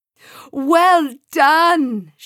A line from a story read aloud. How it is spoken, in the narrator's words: shouted Sam